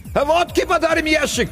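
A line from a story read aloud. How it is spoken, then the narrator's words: Distant shout. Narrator (Russian): крикнули оттуда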